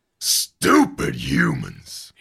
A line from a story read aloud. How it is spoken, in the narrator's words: It roars